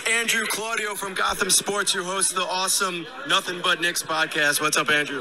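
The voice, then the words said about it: Hoarse, strained voice. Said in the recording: “it doesn't even fucking sound like you ... I lost my voice. I didn't realize how much screaming I was doing”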